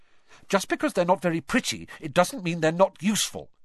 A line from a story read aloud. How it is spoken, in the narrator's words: Hermione snapped